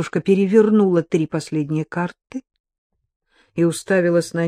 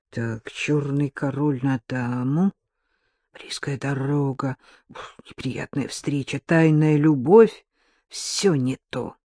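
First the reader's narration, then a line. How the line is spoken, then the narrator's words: Absorbed muttering. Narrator (Russian): Дарья Олеговна погруженная в чтение расклада и время от времени бормотавшая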